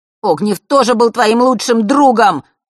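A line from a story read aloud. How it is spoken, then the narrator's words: Shouted. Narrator (Russian): выкрикнул Ник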